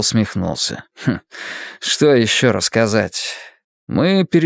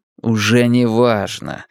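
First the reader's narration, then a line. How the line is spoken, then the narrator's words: Curt, irritated. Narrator (Russian): бросил я раздраженно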